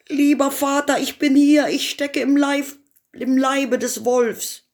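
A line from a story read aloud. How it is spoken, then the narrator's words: Calling out. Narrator (German): Daumestick rief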